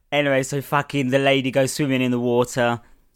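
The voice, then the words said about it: Slightly Scouse-sounding delivery. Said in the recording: “I said that like I was going to do a Scouse accent.”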